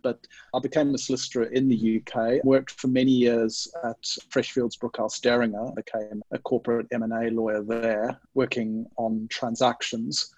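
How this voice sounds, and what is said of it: Zimbabwean English accent. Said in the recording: “I'm originally from Zimbabwe in Southern Africa. So people, if people are wondering about the strange accent, hopefully that will explain it”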